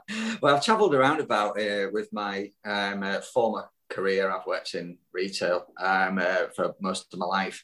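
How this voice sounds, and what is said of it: Yorkshire accent. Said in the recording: “a Yorkshire twang in your accent”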